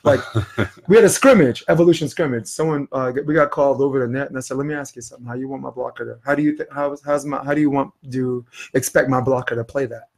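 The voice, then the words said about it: Brooklyn accent. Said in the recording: “I'm from Flappish Avenue, Brooklyn ... I ask a question with this accent and everybody thinks I'm saying something”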